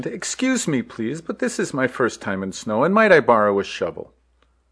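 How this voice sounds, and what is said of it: Thick Indian accent. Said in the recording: “asks me, in a thick Indian accent”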